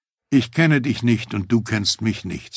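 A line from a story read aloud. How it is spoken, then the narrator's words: Plain. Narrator (German): sagte ich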